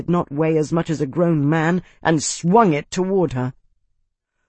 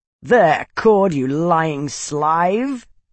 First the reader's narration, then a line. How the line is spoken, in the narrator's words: cackled Steadholder Warner from atop the stairs